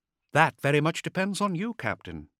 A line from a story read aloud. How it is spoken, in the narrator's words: Greydove said quietly